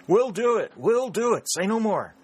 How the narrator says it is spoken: exclaimed Pennington hastily

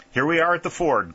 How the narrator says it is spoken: cried Whitley

